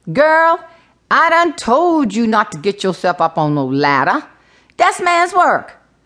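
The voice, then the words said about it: Gullah brogue. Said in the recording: “in her gullah brogue”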